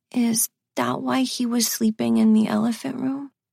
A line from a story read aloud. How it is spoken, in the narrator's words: in a small voice, Bennett asks